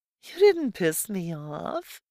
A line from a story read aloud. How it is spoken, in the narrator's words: she laughed